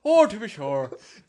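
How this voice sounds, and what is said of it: Exaggerated stereotypical Irish accent. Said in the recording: “I'm just going to do the most racist Irish accent.”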